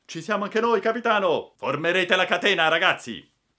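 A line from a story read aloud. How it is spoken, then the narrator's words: Brave emigrants shouting. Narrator (Italian): Alcuni emigranti, i più coraggiosi, gridando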